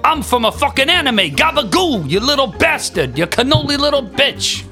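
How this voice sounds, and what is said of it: Put-on New Jersey/Brooklyn accent. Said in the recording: “New Jersey accent, bro. Or his Brooklyn accent.”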